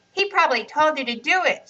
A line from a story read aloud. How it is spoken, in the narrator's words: shouted Riaz